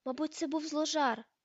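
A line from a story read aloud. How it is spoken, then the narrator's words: Exclamation. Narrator (Ukrainian): вигукнула Герміона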